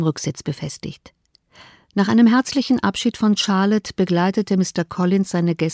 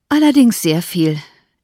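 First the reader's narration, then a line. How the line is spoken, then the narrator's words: Sighing reply. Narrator (German): entgegnete ihre Reisegefährtin mit einem Seufzer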